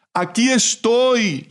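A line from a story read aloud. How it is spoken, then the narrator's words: Father shouting back. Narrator (Spanish): gritó a su vez el padre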